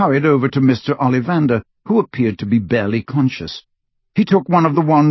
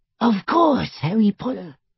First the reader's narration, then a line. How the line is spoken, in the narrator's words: whispered the little elf